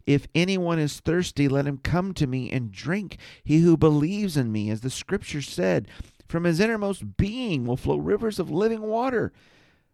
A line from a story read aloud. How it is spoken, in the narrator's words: Jesus stood and cried out, saying